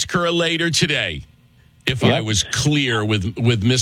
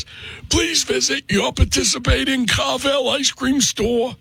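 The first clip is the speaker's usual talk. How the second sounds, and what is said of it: Impression of Mr. Carvel commercial. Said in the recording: “Mr. Carvel, who you don't think I do a good impression of, because he would say it like this ... He would do it in the commercial”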